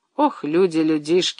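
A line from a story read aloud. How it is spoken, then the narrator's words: Sigh. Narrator (Russian): вздохнул Андрей Иванович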